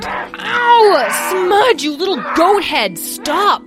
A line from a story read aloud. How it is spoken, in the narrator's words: Petra yelled over the sounds of Smudge's grunting and growling